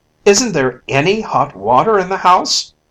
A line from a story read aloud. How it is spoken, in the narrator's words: cried Paul